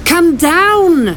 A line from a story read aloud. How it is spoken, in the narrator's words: her friend shouted